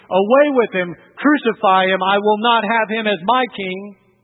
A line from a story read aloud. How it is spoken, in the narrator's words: your voice once screamed